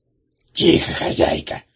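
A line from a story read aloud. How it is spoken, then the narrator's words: Hissing warning. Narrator (Russian): зашипел Кикимор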